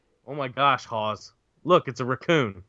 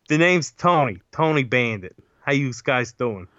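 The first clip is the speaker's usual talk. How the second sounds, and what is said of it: Put-on New York accent. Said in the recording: “He speaks with a New York accent.”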